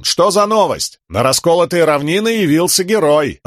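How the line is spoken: Soldier's joyful yell. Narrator (Russian): радостно заорал солдат

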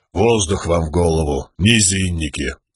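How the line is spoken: Grumbling stone. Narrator (Russian): проворчал камень

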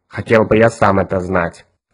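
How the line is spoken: Creaky voice. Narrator (Russian): проскрипел мозг

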